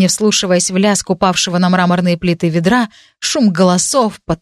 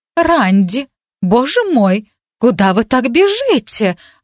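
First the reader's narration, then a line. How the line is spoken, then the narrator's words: Exclamation. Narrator (Russian): воскликнула мадам Вагнер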